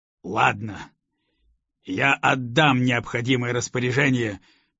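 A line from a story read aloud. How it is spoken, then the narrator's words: Barely restrained growl. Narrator (Russian): уже едва сдерживаясь, прорычал комендант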